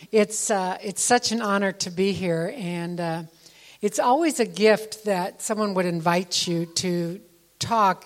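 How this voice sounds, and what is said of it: Speaks with a noticeable accent. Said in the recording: “I've been told since I arrived that I have an accent”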